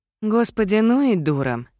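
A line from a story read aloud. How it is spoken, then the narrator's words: Sighing. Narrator (Russian): вздохнула Мирабель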